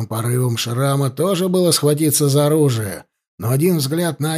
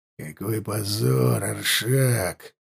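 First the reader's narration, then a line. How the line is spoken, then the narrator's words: Through gritted teeth. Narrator (Russian): процедил он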